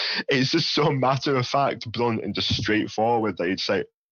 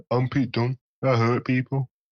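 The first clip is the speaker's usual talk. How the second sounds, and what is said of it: Poorly done Brummie English accent. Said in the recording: “especially Brummies as well... straightforward and blunt... me butchering English accent”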